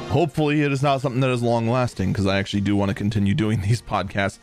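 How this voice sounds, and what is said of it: Voice sounds ill. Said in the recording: “I apologize for my voice. I am starting to come down with something.”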